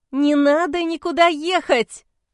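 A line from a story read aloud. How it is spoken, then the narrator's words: Nearly shouting. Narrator (Russian): Почти закричала я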